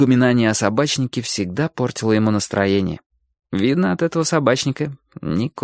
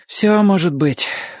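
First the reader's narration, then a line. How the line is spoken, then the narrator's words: Sighing. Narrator (Russian): вздохнул Чик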